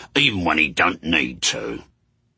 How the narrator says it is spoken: sneered Haster

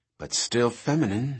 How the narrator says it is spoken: she said, grimly

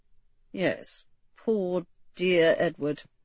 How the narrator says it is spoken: Gifford agreed faintly

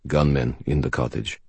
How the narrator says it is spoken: Sonya murmured very quietly

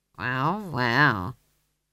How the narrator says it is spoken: he said weakly

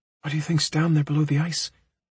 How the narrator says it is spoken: She whispers

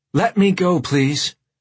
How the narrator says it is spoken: Sheila said in a strained voice

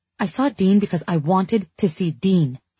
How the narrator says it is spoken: I snapped

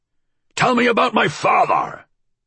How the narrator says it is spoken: he shouted

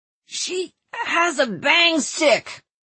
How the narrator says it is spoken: Tristan said in a strangulated voice in Norman

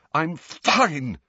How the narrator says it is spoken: Harry choked, shaking uncontrollably

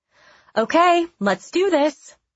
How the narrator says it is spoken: my mom called out

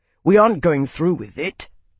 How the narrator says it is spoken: Max growled

